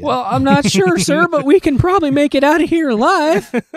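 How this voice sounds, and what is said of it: Imitates Morty cartoon character voice. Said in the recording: “kind of just slipped into Morty there”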